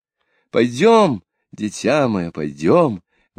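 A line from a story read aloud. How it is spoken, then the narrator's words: Exclaiming woman. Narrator (Russian): воскликнула ландграфиня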